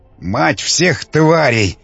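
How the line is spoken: Breathless exclamation, priest. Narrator (Russian): выдохнул жрец

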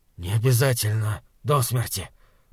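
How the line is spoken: Rasping wheeze. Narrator (Russian): прохрипел Хорза

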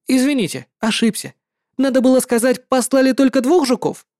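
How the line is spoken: Haughty. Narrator (Russian): надменные слова Линь Хуана

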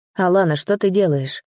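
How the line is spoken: Tired voice. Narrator (Russian): спросил уставшим голосом

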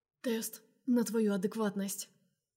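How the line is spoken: Hoarse, ragged. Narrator (Russian): хрипит рвано

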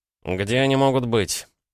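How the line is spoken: Irritated question. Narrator (Russian): задал Краснов вопрос, раздраженно

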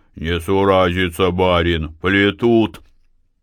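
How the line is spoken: Indignant, bold bass voice. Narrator (Russian): Возмущенный неправдой, Силантий сразу осмелел и сказал басом

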